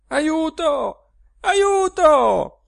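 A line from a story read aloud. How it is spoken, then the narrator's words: Woman shouting for help. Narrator (Italian): gridava lei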